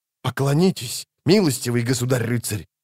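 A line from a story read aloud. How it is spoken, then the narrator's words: Hissed. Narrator (Russian): прошипел Фиолетовый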